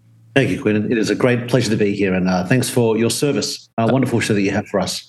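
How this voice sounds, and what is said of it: Speaks with a noticeable accent. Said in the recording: “I'm already loving the accent, and we're only two sentences in”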